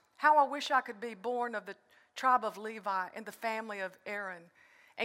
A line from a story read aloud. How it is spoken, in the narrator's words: the man from Moab sighs